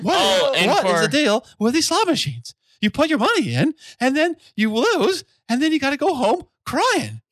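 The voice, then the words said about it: Squeaky cartoonish impression voice. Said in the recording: “can I do my Jerry Seinfeld impression real quick? ... Why do you sound like Mickey Mouse right now?”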